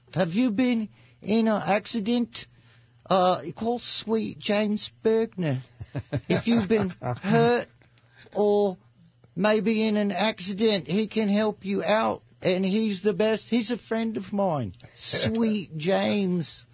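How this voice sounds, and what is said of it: Impression of Jonesy. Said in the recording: “Can you do a Jonesy impression? ... More like Nigel Tufnell.”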